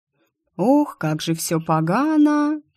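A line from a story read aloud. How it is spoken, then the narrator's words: Drawling. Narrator (Russian): протянула я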